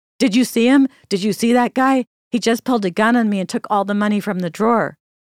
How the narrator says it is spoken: the cashier came staggering out the door, yelling

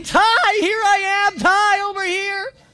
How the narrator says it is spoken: screaming

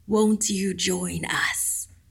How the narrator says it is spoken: It breathed

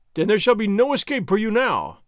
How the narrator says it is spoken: Captain Ramon cried

